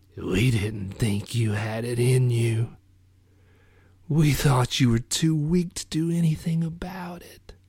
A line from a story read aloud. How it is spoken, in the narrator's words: In a wet rasp, said